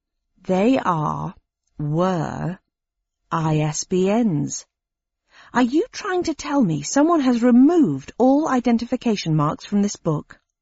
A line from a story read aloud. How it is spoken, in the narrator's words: I said slowly